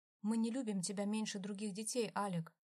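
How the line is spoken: Calm explanation. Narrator (Russian): спокойно начал ему объяснять Викензо

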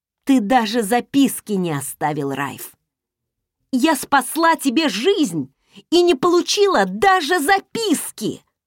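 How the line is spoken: Growl. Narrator (Russian): зарычала

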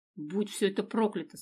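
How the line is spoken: Through gritted teeth. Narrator (Russian): сквозь зубы произнесла она

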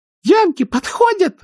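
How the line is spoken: Frightened shriek. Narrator (Russian): взвизгнула Присси, сжавшись в комочек

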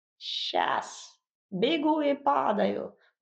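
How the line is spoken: Creaky spiteful old woman. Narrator (Russian): проскрипел вредный старушечий голосок

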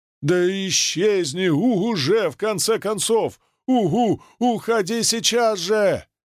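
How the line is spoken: Anxious shout. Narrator (Russian): крикнула Шуши, которая все еще сходила с ума от тревоги

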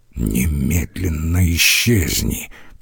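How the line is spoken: Through gritted teeth. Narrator (Russian): процедил Ломбарди

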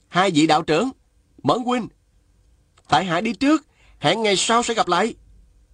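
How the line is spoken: Loud. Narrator (Vietnamese): Chàng bèn lớn tiếng nói

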